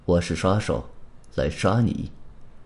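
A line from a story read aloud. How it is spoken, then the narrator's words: Cold. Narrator (Chinese): 黑影冷冷的说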